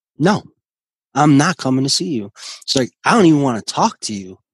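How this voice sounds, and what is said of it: Angry voice. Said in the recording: “in this angry voice”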